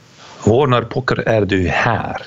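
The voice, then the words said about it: Somewhat Swedish accent. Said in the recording (Dutch): “En dat zeg ik met een enigszins Zweeds, accent.”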